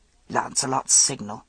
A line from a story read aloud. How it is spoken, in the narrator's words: asked in a rasping whisper